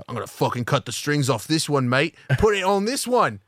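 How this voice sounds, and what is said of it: Put-on Australian accent. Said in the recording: “Since when did he have an Australian accent?”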